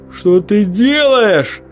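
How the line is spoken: Shouting. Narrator (Russian): закричал Микки

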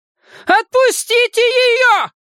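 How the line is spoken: Old woman's piercing shout. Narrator (Russian): пронзительно прокричала старушка

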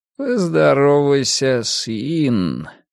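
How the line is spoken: Mumbled. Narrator (Russian): промямлил Рокки

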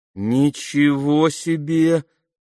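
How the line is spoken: Drawling. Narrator (Russian): протянул Алфи

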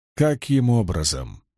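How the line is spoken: Plain. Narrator (Russian): спросил Том

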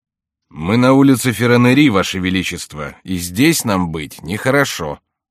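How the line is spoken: Grumbling complaint. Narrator (Russian): сказал Добинье, жаловавшийся на предметы, когда ему надоедало ворчать на людей

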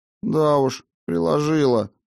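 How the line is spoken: Dejected grumble. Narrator (Russian): пробурчал Матфей, понурившись

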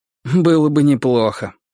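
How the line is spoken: Sighing. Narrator (Russian): вздохнул Вейт

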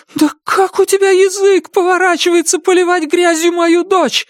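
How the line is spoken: Yelling. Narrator (Russian): завопила Дун

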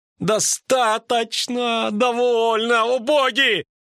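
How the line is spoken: Nervous shout. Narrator (Russian): нервно крикнул лютик

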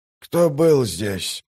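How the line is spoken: Hoarse rasp. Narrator (Russian): прохрипел он

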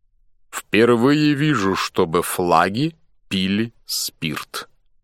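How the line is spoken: Clipped, precise. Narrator (Russian): отчеканил Суир

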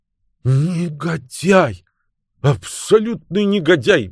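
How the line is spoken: Exclamation. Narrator (Russian): воскликнула миссис Раймер

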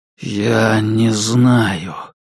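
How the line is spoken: Exhaled at last. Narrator (Russian): наконец выдохнул Кай

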